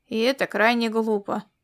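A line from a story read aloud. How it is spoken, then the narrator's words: Grumbling. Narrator (Russian): проворчал Ласло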